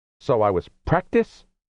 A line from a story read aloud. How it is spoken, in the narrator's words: Rose snarled